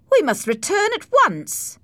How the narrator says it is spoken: I called out

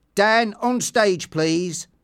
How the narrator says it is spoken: shouted Sam

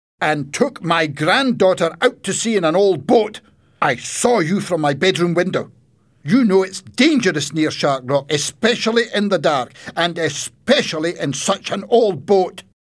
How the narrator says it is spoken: he shouted at Alex

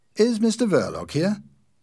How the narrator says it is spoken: the man asked in a friendly voice

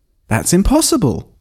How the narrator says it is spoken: I exclaimed

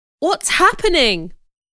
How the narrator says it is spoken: cried, confused

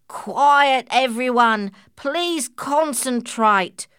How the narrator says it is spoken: shouted an old grey mother kangaroo

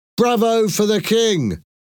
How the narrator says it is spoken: somebody in the crowd suddenly shouted

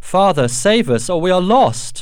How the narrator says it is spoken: Alice called out to him

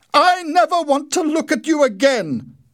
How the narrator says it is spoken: Winnie shouted

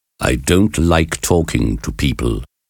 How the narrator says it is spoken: said the professor in an arrogant voice

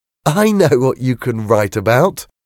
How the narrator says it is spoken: said Tori, laughing

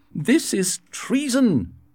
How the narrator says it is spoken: he shouted

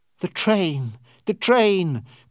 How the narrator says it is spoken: cried Passepartout, worried

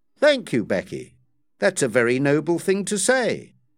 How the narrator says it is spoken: Pitt exclaimed

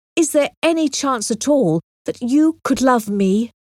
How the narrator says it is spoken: he said in a passionate voice

